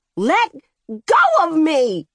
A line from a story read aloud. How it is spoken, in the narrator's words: she shrieked